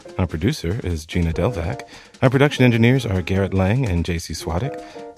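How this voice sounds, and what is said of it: Exaggerated podcast announcer voice. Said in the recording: “I'm going to do this in the podcast voice.”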